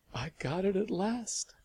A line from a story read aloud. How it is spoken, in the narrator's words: Lavinia said weakly, smiling